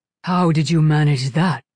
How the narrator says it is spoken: rumbled Hua Chung

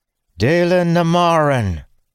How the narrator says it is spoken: a powerful feminine voice called out from his left

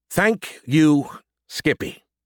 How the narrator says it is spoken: I said through clenched teeth

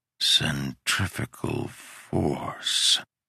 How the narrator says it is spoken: I muttered

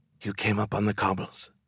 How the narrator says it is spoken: She whispered this, but the whisper was very different from the way she whispered into my ear

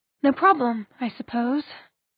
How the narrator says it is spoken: she sighed

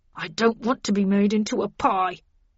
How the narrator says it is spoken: moaned Linton

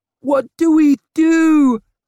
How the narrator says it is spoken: her ma screamed

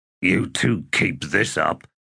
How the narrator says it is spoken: Cuttle said in a growl

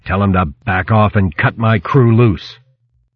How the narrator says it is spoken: he growled

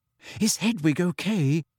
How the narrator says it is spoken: asked Hermione anxiously

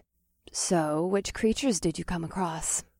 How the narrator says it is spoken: Vesta asked, and her velvety voice dropped into a sensual purr

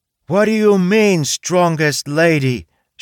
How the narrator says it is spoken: she yelled

